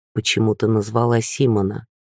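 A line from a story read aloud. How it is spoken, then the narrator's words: Quiet, fearful, reluctant. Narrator (Russian): он сказал, как бы против своей воли, тихо и боязливо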